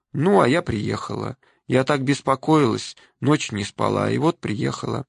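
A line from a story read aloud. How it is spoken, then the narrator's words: Very calm. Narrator (Russian): я совсем спокойно сказала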